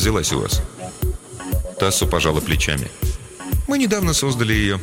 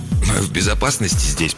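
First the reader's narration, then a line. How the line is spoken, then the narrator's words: Hoarse wheeze. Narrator (Russian): прохрипел Хендрикс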